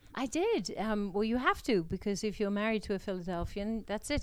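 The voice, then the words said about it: Non-local accent. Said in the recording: “you can tell from her accent, she's not from Philadelphia”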